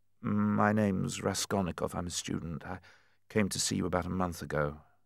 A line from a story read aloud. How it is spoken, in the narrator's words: the young man muttered hastily